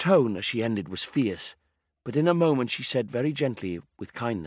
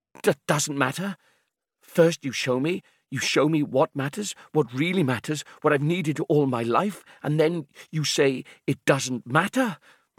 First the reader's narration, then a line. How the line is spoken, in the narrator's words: said, stammering, almost choking